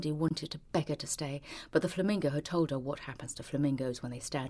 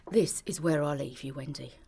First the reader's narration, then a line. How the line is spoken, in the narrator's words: said the flamingo